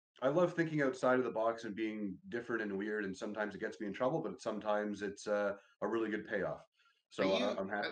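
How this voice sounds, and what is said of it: Canadian Toronto accent. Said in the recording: “you've got what they might call a Toronto accent ... the way you said both those words was so Canadian”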